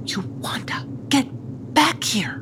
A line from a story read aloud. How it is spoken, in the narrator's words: whispered Zeemsneeze